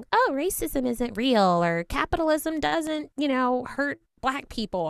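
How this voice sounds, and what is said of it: Convincing white girl accent. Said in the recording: “That white girl accent is on point. ... It's very convincing.”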